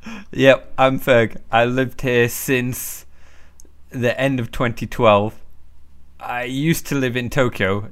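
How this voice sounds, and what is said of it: British accent. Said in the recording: “If you can't tell by my accent, I'm originally from Britain.”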